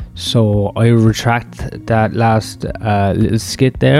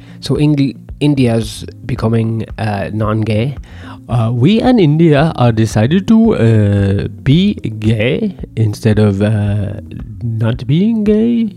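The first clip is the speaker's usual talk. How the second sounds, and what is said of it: Unconvincing put-on Indian accent. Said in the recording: “I don't think that's a very good Indian accent. And if you're going to be racist, I think you should have a convincing accent.”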